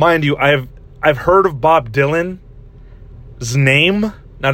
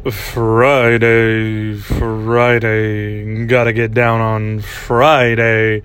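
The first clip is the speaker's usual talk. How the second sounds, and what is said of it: Sung imitation of another person's voice. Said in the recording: “my best impersonation of this song”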